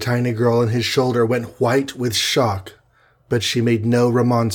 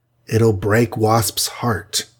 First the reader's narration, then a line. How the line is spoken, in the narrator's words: murmured Hawkeye